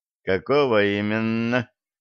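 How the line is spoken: Captain asked insinuatingly. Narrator (Russian): вкрадчиво спросил капитан

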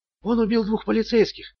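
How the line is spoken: Whisper. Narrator (Russian): прошептала она

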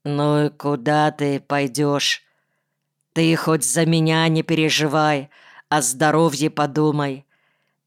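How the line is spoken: Unexpectedly calm question. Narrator (Russian): выровнял дыхание, спросил неожиданно спокойным голосом

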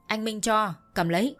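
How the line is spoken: Shout. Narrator (Vietnamese): thằng Bích đã quát

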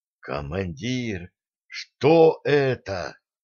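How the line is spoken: Shocked whisper. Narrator (Russian): старпом потрясенно прошептал

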